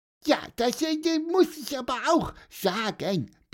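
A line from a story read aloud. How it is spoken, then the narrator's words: Squeaky voice. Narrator (German): piepste Pieper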